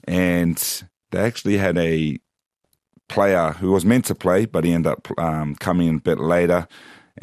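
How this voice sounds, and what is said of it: Croaky, strained voice. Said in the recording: “my voice is a bit croaky, because I was screaming from the sidelines”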